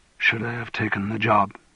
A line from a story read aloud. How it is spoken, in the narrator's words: He said in a whisper, as if to himself